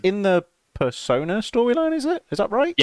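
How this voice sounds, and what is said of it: Very high-pitched voice. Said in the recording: “My voice went very high pitched then.”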